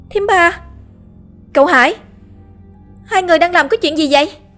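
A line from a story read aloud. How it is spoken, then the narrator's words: Sudden shout. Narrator (Vietnamese): Đột nhiên Lan hét lên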